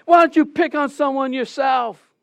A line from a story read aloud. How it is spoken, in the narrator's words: yells